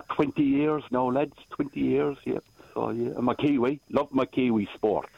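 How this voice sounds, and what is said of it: Irish accent. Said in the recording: “I love that voice ... That accent's beautiful ... I'm an Irishman originally”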